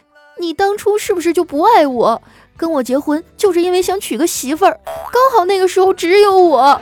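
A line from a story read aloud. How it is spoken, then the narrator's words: Tearful voice. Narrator (Chinese): 他带着哭腔说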